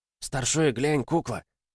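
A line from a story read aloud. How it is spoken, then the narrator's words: Whispered. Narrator (Russian): шепотом сказал Пашка Лукьянов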